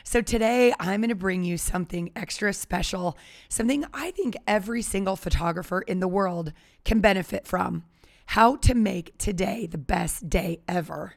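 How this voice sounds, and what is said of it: Slightly hoarse, weakened voice. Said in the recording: “I've lost my voice a little bit.”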